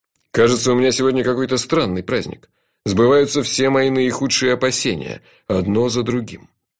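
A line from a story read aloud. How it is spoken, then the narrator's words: Grumbling. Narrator (Russian): проворчал шеф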